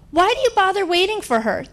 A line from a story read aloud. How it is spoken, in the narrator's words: the waiter finally blurts out